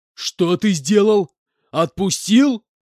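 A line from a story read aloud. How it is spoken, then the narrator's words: Furious shouting. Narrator (Russian): С пеной у рта закричал Иванович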